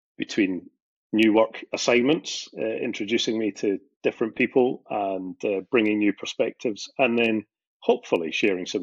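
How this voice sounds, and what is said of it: Scottish accent. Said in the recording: “based in Scotland, as you might be able to guess from the accent”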